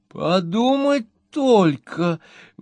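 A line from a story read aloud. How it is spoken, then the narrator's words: Exclaiming. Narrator (Russian): воскликнула мисс Напкинс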